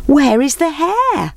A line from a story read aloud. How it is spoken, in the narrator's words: They called out